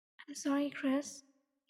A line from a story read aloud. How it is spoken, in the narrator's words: he whispered